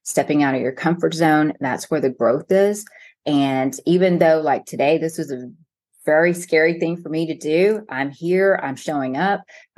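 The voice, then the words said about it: Texas accent. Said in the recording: “I'm speaking with all my Texas accent”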